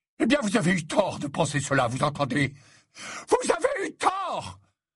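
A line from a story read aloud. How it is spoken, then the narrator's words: Screamed. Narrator (French): Il avait hurlé ce dernier mot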